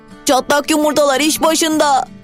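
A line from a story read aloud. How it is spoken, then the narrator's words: Shouted. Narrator (Turkish): diye bağırdı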